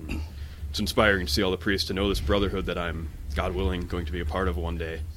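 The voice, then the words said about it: Rich, smooth radio-style voice. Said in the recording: “You got a great radio voice.”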